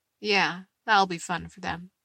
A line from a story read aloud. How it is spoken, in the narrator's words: Eddie says dryly, but smiling at Steve